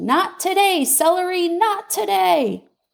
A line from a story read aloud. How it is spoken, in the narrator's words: sighed a deep sigh that came up from my toes